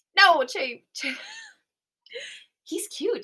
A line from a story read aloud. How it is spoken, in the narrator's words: she whispers, giggling to herself